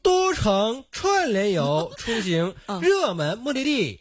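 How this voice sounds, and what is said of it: Award ceremony presenter tone. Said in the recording (Chinese): “你这是有点颁奖晚会的颁奖词的口音是吗？”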